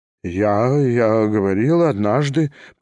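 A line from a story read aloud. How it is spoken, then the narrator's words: Embarrassed babble. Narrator (Russian): пролепетал Степан Трофимович, весь покраснев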